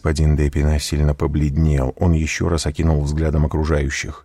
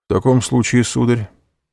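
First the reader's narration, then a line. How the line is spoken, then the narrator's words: Calm. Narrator (Russian): спокойно ответил президент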